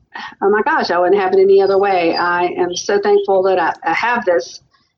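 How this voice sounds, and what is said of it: Southern US accent. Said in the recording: “y'all may hear a little bit of an accent. I am from the South”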